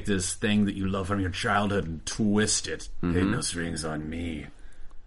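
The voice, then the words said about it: Imitates the Ultron character's voice. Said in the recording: “That's my Ultron impression. ... It was great. ... it was perfect. ... It was okay.”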